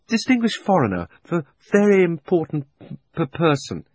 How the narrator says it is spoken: he stammered

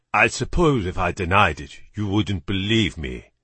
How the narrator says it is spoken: Gillette said in an excellent British accent

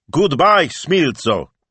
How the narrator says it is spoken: he said loudly, taking care to enunciate each word

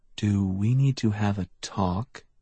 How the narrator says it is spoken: He said softly

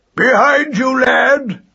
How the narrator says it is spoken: he thundered

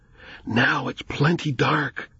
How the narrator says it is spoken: Jonathan whispered

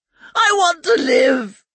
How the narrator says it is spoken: he wailed

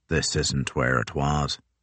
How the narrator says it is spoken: croaked Crozier

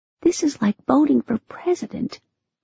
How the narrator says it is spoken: I whispered in Teddy's ear

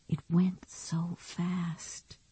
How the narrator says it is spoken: she whispered

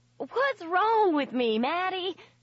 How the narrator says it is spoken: Lindsay wailed

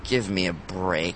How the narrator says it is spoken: I muttered

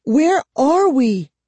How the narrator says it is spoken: Kara cried, unable to hide the fear in her voice

